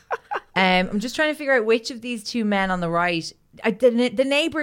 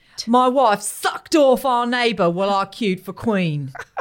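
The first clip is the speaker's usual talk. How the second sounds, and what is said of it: Put-on English accent. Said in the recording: “You have to say it in an English accent.”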